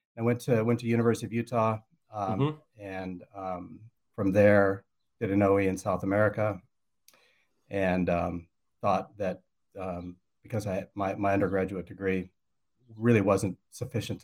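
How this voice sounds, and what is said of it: American accent. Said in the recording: “you can tell by my accent, I'm not from here. I grew up in the States ... Northwest. It's in Idaho.”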